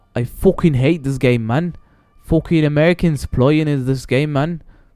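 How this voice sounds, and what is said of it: Put-on Irish accent. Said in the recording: “I sound Irish. I don't know why.”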